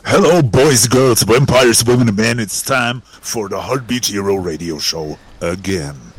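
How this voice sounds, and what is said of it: Powerful deep announcer voice. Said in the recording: “the powerful deep voice ... I can't match that deep voice.”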